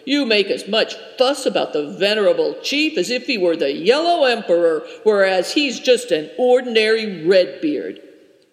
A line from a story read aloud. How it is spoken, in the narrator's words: said Good Fortune gruffly